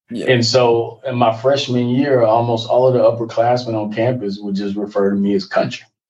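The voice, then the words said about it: Texan country accent. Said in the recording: “my accent ... I'm native Texan, but I am a country boy”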